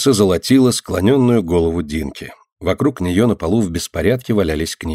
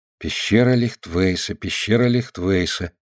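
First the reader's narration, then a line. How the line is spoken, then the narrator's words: Quiet muttering to herself. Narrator (Russian): тихо повторяла про себя Динка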